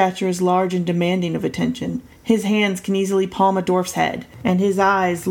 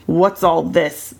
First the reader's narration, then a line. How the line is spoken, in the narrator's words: the elder man grumbles